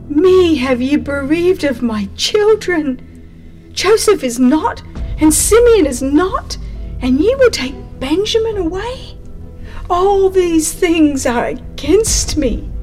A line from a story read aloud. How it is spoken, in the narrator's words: In his distress, the aged father exclaimed